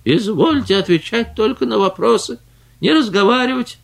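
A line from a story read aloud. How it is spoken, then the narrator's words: Angry impatient unpleasant shouting. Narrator (Russian): он обыкновенно сердится, нетерпеливо стучит палкой об пол и кричит своим неприятным голосом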